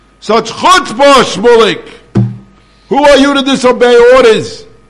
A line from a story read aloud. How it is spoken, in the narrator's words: his father came, and with tremendous anger, he screamed